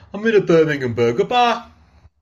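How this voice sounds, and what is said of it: Birmingham accent. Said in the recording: “if I was to say that in my old accent ... that's a bit different, actually”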